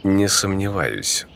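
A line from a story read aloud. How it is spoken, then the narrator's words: Calm. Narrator (Russian): спокойно ответил главарь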